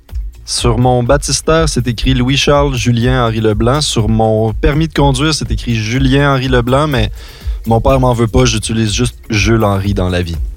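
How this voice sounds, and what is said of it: Non-European French accent. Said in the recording (French): “comme on peut l'entendre à ton accent, tu n'es pas originaire de France ou de Belgique”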